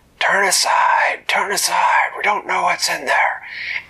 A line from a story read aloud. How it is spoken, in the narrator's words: yelled